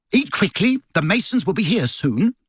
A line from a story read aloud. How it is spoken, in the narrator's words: snapped Aunt Petunia